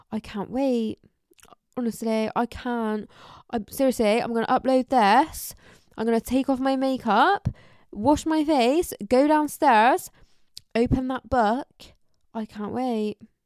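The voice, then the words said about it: Put-on Bristolian accent. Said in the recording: “Imagine I had a proper Bristolian accent. ... Imagine I talk like that.”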